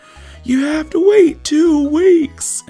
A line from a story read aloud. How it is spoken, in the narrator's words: just started yelling